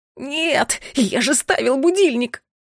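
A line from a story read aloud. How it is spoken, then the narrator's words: Howling over thunder. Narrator (Russian): взвыл бедолага под новый громовой раскат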